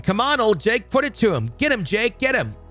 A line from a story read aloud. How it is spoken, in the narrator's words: I started to scream